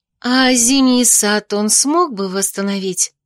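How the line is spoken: Dreamy drawl. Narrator (Russian): мечтательно протянула я

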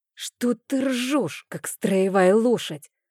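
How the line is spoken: Hissing. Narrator (Russian): зашипела я

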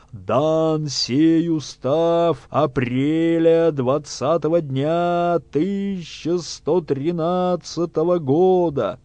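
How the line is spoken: Booming stout scribe. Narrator (Russian): Круглый, как бочка, писец прокричал трубным голосом

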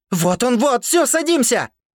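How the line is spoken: Very loud shout. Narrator (Russian): Кричала она так громко, что даже Хан выключил свой фильм

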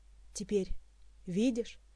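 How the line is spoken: Quiet voice. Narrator (Russian): негромко произнес Карлос

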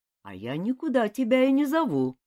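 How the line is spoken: Calm demon. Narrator (Russian): спокойно ответил бес

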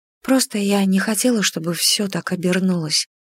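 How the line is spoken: Whisper. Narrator (Russian): прошептала я

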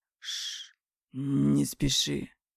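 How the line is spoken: Hoarse. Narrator (Russian): хрипло произносит Марат

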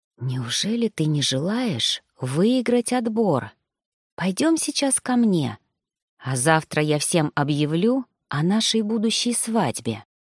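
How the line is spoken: Seductive whisper. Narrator (Russian): прошептал настолько соблазнительно

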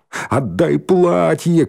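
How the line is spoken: Shouted. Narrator (Russian): крикнул Димка

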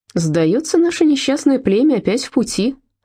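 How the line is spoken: Forced cheerful tone. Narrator (Russian): сказала Фрида, стараясь, чтобы вышло бодро

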